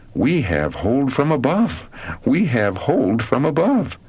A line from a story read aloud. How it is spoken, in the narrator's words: exclaiming